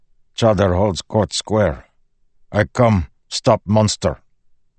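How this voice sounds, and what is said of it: Thick foreign accent. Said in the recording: “in a thick Thalen accent”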